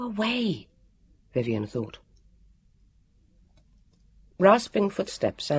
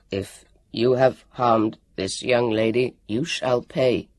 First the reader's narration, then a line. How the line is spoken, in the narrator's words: he croaked